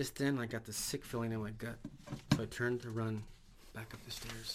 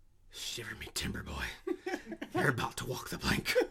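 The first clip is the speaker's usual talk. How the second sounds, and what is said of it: Raspy pirate voice. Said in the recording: “a raspy voice said into my ear”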